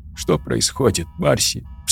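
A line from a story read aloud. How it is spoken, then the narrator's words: Sobbing. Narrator (Russian): всхлипнула Тори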